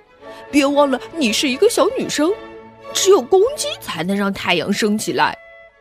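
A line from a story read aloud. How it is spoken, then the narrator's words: Mocking. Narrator (Chinese): 小胖墩儿嘲笑道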